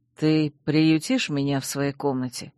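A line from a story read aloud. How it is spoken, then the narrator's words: Whispered into ear. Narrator (Russian): шепнул Чейз мне на ухо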